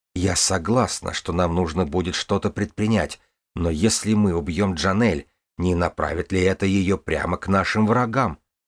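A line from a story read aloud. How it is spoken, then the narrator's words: Gentle reminder. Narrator (Russian): мягко напомнила мужу Ксиван Каин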